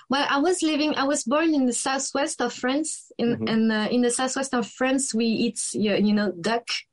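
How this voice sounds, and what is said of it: French accent. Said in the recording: “you don't have an accent, but I love the French accent. There's just something very pleasant and romantic about listening to a French accent ... I know that I have a really an accent when I speak”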